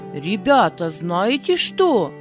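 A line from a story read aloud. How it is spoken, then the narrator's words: Commanding voice. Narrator (Russian): сказал он повелительным голосом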